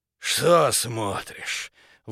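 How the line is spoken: Breathless. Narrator (Russian): выдохнул

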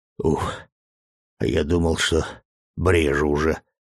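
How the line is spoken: Relieved exhale. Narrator (Russian): облегченно выдохнул Сашка

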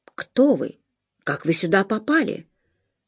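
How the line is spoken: Slightly trembling question. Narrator (Russian): Слегка дрогнувшим голосом он спросил

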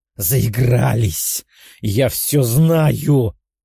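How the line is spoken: Woman's hiss. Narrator (Russian): прошипела женщина

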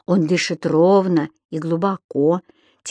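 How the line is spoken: Quiet. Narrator (Russian): тихо сказал он Понеделькусу

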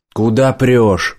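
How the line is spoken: Rude young male shout. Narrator (Russian): грубо закричал молодой солдат

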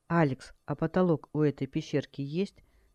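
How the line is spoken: Plain. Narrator (Russian): спросила Хэл

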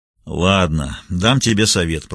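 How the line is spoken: Grumbling. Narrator (Russian): проворчал детектив

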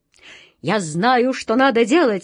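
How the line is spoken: Exclaimed. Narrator (Russian): воскликнул он

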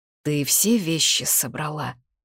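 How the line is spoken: Hoarse, dry-lipped. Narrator (Russian): вымолвила сипло, причмокивая пересохшими губами

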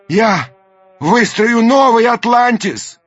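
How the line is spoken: Shouted after them. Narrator (Russian): крикнул им вслед Даймё

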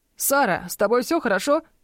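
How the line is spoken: Hurried worried shout. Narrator (Russian): закричал, спеша к нам

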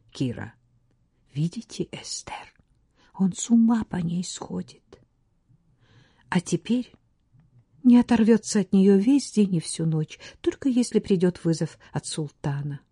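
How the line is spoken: Quiet. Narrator (Russian): Латифа тихо сказала

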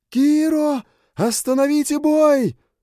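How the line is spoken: Shouting from above. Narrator (Russian): выкрикнула Люча с вершины башни

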